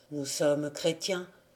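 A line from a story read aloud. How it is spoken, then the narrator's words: Plain. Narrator (French): dit Sulpice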